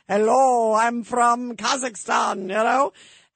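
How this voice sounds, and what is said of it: Heavy put-on Kazakh accent. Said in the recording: “you hear the guy with the heavy accent.”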